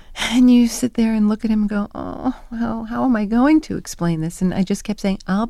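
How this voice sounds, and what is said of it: Usual voice. Nothing is said of it.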